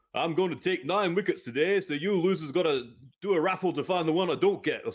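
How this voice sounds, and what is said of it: Weak Yorkshire accent, Fred Trueman impression. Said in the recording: “a vastly better Yorkshire accent”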